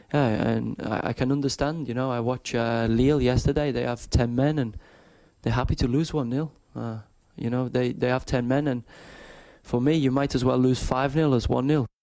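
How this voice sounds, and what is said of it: Exaggerated put-on French accent. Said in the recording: “this ridiculous French accent”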